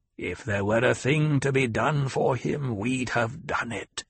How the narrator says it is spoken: the old woman growled

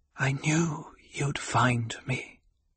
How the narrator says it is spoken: she whispered

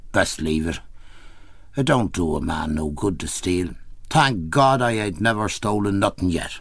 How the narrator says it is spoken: saying gloomily

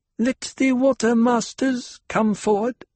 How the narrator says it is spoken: Cheney said, with only the slightest quaver of uncertainty in her girl-child voice

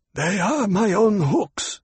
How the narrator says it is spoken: Shishakli said in a husky voice

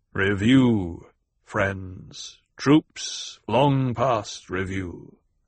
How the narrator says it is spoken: the Duke intoned

